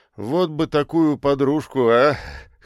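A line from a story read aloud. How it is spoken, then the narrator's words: Chuckling. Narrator (Russian): хохотнул он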